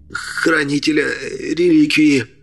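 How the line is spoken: Hiss. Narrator (Russian): Прошипел тот

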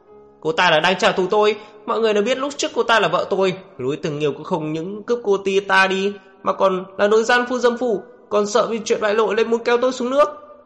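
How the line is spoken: Hoarse shouting. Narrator (Vietnamese): Ổn Nú Khiên gào khan cả giọng

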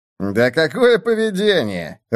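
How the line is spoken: Laughing. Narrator (Russian): рассмеялся Мартин

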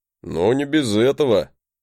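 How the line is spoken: Snorting. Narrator (Russian): хмыкнул он

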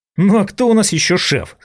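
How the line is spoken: Irritated question. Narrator (Russian): раздраженно спросил я

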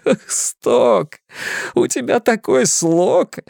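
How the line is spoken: Laughing. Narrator (Russian): Ричи смеялся

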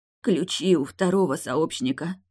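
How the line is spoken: Quiet. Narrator (Russian): тихо произнесла Тильда

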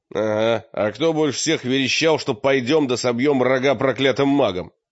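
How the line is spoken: Snapping retort. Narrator (Russian): огрызнулся мрак

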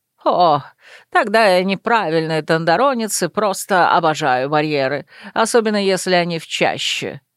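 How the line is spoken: Laughing. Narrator (Russian): рассмеялся лорд Шатали

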